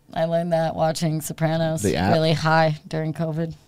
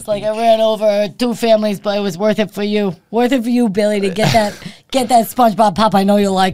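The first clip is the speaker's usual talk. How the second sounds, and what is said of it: Put-on New Jersey accent. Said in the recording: “That's a good Jersey accent.”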